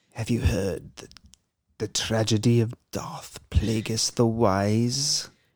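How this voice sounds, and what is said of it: Darth Sidious character impression. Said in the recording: “my Darth Sidious impression”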